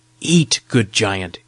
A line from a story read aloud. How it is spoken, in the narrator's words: said